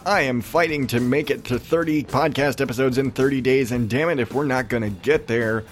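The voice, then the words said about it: Raspy, strained voice. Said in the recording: “my voice is still fucked up ... raspy as hell”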